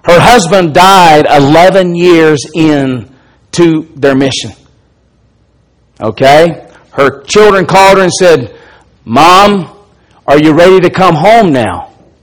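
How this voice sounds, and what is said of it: Southern American Alabama accent. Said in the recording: “I'm hamstrung by my Alabama accent.”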